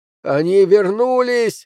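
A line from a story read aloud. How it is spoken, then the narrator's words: Yelled. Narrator (Russian): заорал он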